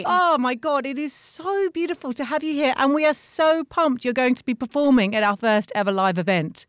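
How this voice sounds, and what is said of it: Soothing accent. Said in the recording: “I could listen to your accent all day. ... So soothing.”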